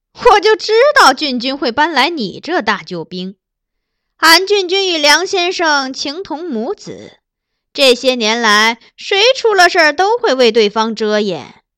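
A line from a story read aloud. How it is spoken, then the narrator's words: Sneering. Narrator (Chinese): 她只是冷笑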